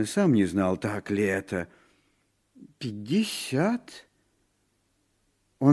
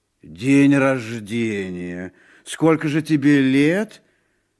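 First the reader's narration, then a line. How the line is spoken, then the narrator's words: Uncertain reply. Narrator (Russian): Муни неуверенно ответил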